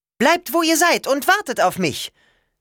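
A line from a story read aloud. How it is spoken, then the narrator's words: Shouting upward. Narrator (German): rief sie zu Leo und Nico hoch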